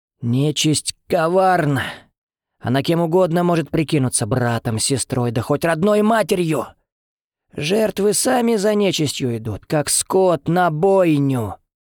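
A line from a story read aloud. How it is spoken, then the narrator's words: Hoarse, clipped, growing louder. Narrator (Russian): вещала Федора, и ее голос, хриплый и отрывистый, звучал все громче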